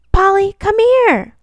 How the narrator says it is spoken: the little girl yelled again

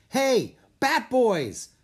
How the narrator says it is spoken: the guard shouted

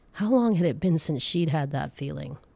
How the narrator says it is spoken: Heloise sighed

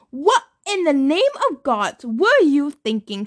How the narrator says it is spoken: bellowed

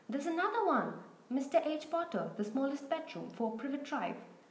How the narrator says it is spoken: Then he shouted

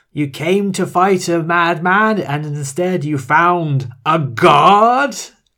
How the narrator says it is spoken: he shouts at Gail

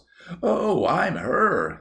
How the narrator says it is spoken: gasped Mary Louise

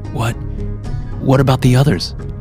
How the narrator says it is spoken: asked anxiously

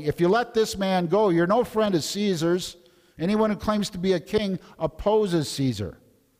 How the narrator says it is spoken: the Jews kept shouting

